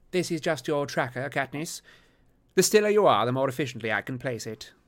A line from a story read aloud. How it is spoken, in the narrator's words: she says